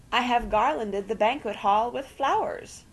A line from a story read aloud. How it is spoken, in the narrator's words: cried Aunt Celia ecstatically and unnecessarily